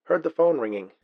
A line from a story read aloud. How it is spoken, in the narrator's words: answered Jonathan, his voice muted by his hand over the mouthpiece